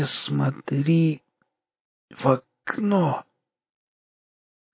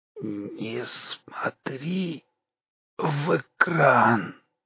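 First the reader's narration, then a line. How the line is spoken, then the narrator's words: Strained wheeze. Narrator (Russian): с трудом просипел Ложкин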